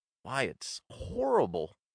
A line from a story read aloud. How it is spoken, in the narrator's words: exclaimed Hatch